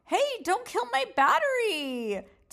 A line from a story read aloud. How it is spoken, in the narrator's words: Tina yelled